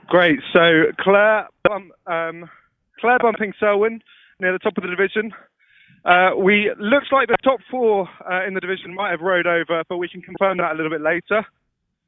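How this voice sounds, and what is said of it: Out of breath, panting speech. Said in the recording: “I'm really sorry, I'm so out of breath.”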